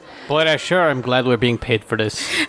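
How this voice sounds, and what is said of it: Country twang creeping into speech. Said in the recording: “his accent changed a little bit ... He's getting lazy, so the country twang is coming in.”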